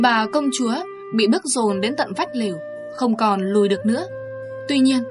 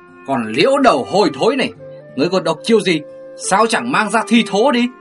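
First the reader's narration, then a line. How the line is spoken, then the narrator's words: Hissing. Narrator (Vietnamese): Ngô Bạch Vân rít lên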